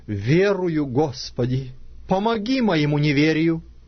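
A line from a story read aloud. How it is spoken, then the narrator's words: Tearful father's cry. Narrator (Russian): отец отрока воскликнул со слезами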